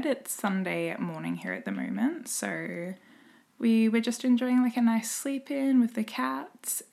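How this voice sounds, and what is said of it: Slightly croaky just-woken-up voice. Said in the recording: “my voice sounds a little bit croaky. I've actually pretty much only just woken up for the day”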